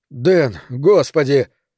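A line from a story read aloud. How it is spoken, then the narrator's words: Strained, forced out. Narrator (Russian): только и сумел я выдавить из себя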